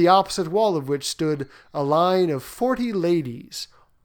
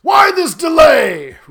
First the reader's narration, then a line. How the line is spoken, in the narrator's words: roared the king